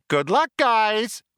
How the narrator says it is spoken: chirped the computer

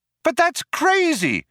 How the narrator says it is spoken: cried Trillian

